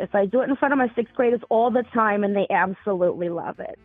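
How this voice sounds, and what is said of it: Put-on Brooklyn accent. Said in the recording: “I can talk in my Brooklyn accent like this.”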